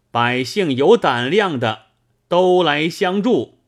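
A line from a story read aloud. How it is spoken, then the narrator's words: Booming thunderous voice. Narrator (Chinese): 声音响震数百步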